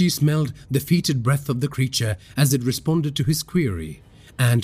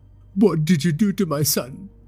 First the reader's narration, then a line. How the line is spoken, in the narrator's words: Rishi asked, his words slurring